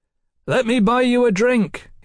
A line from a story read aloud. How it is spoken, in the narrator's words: he shouted